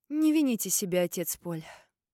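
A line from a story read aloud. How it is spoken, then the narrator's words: Sighing. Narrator (Russian): вздохнул Алистер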